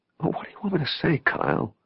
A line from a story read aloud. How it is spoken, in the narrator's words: He sighed